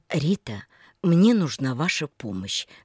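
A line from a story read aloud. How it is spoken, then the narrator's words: Quiet request. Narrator (Russian): вдруг тихим голосом попросил Михаил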